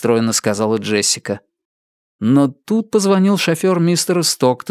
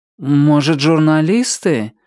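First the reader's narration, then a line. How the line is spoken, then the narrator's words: Unsure suggestion. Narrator (Russian): неуверенно предположил он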